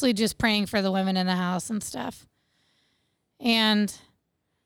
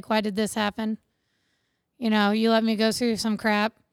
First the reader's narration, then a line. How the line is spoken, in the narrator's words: calmly be like